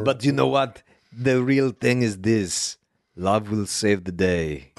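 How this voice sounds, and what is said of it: Imitates another person's voice. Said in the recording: “impersonating you, impersonating Arnold Schwarzenegger. ... It's better than my pal D's impersonation”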